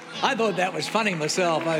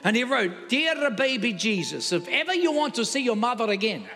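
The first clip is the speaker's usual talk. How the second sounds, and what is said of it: Put-on Italian accent. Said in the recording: “I thought the Italian accent really took it over the top.”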